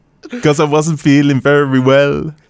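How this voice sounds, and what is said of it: Put-on Jamaican accent. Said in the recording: “why was that with a Jamaican accent?”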